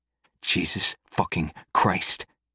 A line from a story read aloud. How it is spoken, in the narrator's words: I hiss